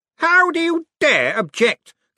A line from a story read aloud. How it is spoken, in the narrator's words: Cosmo spat